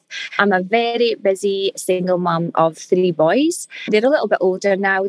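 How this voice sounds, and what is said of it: Scottish accent, slowed and careful. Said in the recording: “what the hell is that accent that she's talking in ... I'm just trying to talk a little bit more slowly and a little bit more polite ... my Scottish accent might sound a little bit different”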